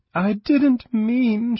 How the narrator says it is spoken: she whimpered

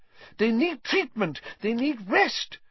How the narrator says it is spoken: spluttered Madame Pumphrey

